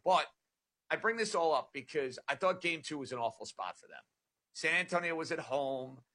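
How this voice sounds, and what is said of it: New York accent. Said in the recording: “You can tell by the dialect I'm a New York guy ... You know where the dialect comes from.”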